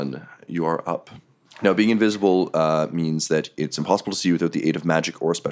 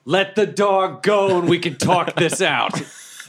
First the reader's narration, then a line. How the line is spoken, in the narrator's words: I just yell